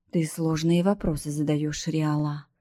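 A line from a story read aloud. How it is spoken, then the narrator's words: Sigh. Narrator (Russian): вздохнул Атрион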